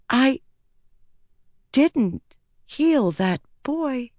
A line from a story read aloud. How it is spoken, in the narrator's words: she whispered